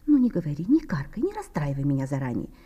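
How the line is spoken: Soft exclamation, woman. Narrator (Russian): тихонько воскликнула миловидная

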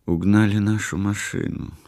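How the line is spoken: Quiet speech. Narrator (Russian): сказала она тихо

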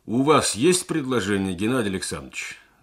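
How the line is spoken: Formal practiced bass. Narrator (Russian): спросил секретарь коллегии своим формализованным, отработанным басом

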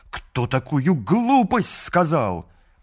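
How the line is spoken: Angry exclamation. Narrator (Russian): Мур-Авьет в сердцах воскликнул

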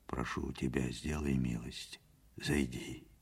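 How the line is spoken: Quiet, close to ear. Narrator (Russian): сказал тихо, наклоняясь к уху

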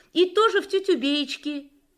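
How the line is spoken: Sudden shout. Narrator (Russian): внезапно закричал Юрик

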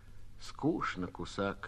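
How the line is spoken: Quiet. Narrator (Russian): тихо проронила Лёля

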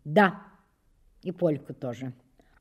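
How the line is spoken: Restrained, embarrassed boy. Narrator (Russian): Мальчик вдруг густо покраснел, но ответил сдержанным тоном

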